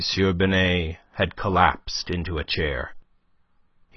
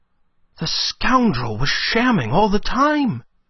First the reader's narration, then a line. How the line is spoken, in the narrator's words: exclaimed Climene